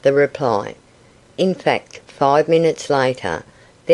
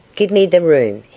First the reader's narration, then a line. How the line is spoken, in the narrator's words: he said quickly